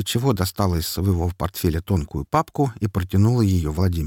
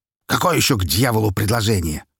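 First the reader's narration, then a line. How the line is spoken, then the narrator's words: Growl. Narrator (Russian): рыкнул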